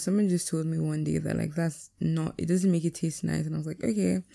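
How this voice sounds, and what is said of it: Raspy, sleepy voice. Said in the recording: “My voice is even sounding raspy, but like not sexy raspy”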